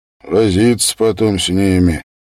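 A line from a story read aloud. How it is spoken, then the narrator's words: Listless mutter. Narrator (Russian): вяло пробурчал солдат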